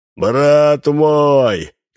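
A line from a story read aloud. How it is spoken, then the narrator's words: Shouting. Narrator (Russian): кричал он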